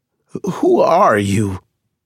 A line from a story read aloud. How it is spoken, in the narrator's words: Stryker choked out